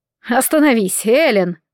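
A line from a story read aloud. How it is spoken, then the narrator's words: Pained moan. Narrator (Russian): простонал Дик, хватаясь за живот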